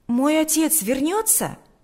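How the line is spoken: Exclaimed. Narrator (Russian): воскликнул Сережа

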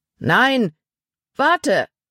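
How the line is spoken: Calling after. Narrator (German): rief Paul ihm nach

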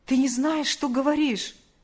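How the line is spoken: Exclamation. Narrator (Russian): воскликнул он

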